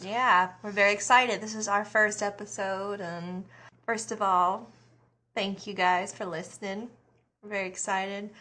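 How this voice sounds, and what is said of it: Rural country accent. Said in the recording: “A good old girl from the country ... obviously I live in country. You can hear by my accent, probably.”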